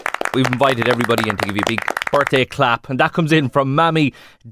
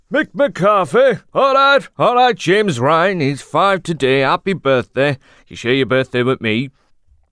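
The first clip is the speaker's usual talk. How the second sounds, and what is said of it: Poor Mick McCarthy accent impression. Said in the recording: “any excuse to do that accent. Not that it's any good or anything”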